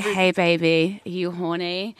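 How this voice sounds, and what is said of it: Put-on American porn voice. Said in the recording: “I'm doing an American accent ... if you're going to do a porn voice, it has to be American”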